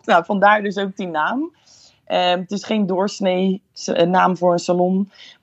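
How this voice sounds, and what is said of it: Slight Rotterdam Dutch accent. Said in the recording (Dutch): “Je hoort het ook een beetje aan je accent”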